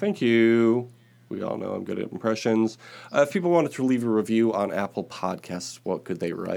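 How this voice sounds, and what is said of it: Usual voice. Nothing is said of it.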